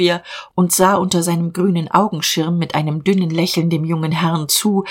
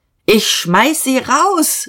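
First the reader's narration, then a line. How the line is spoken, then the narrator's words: Calling out. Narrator (German): rief Dieterich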